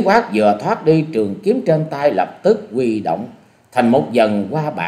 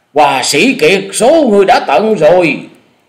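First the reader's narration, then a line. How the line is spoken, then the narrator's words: Loud roaring voice. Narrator (Vietnamese): Lão thứ năm trong thất điểu là Lan Điểu Phi Hồng gầm to nói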